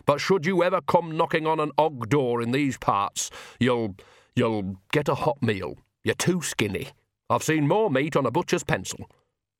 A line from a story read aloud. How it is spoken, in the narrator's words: said stiffly